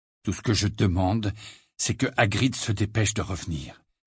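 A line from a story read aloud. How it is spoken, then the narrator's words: Low voice. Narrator (French): dit Harry à voix basse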